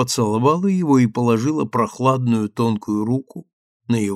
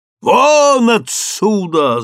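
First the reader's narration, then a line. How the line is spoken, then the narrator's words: Yelling. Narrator (Russian): заорал Блэкхед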